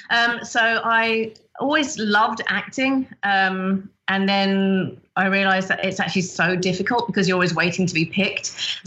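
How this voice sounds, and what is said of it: British accent. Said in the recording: “I'm from the UK originally. I think my accent does give it away ... It's not Australia, it is the UK.”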